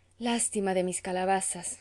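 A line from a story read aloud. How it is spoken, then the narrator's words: Sleepless sigh. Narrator (Spanish): suspiraba a veces sin poder conciliar el sueño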